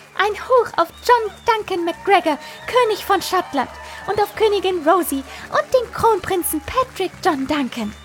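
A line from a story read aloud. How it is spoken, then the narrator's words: Excited, as loud as possible. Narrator (German): Fiona flatterte aufgeregt um uns herum und rief so laut sie konnte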